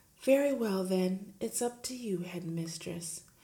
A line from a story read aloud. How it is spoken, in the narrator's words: She said softly